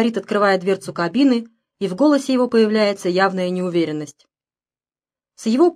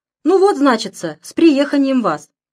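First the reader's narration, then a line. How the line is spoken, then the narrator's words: Deliberately cheerful. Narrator (Russian): Шофер говорит нарочито весело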